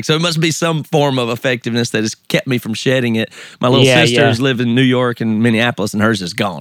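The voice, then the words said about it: American Southern accent. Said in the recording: “I can tell by the accent. ... Gives it away every time. ... since I have a Southern accent”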